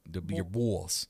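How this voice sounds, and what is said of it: Put-on New York accent. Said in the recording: “I'll say it with a New York accent”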